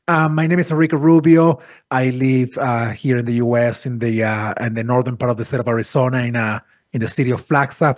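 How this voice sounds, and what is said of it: Hoarse, congested cold voice. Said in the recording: “I have this glamorous, sexy voice today. It's my cold voice.”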